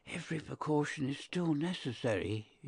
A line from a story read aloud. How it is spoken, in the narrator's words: he whispered